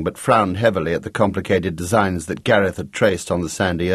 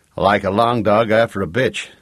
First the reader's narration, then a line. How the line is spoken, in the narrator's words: said Jake